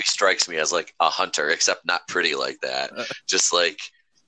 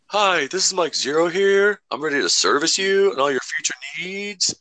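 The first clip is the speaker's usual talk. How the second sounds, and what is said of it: Weak attempt at a Canadian accent. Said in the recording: “I can't really do a good Mike Zero impression because I just can't do that Canadian thing.”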